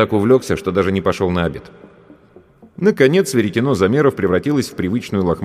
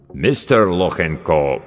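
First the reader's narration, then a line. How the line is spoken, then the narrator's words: Deep voice, mangled pronunciation. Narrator (Russian): пробасил авербанкаща, как обычно, безбожно коверкая фамилию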